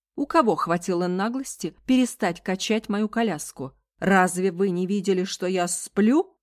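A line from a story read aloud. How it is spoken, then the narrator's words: Loud indignant protest. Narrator (Russian): Ее лицо покраснело, вдохнула в себя достаточно воздуха, протест прозвучит громко и значительно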